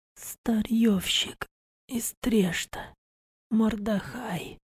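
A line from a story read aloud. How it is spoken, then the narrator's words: Creaky rasp. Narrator (Russian): проскрипела Лора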